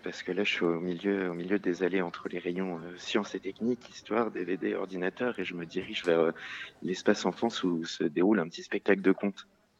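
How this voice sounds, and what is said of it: Whispering. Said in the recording (French): “tu chuchotes, non ? ... je suis en train de chuchoter”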